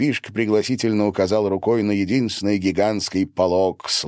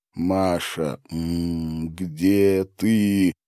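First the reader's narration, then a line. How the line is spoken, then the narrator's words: Moaning. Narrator (Russian): Гарин застонал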